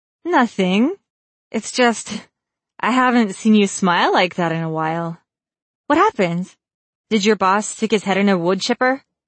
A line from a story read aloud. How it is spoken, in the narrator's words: Lisa laughed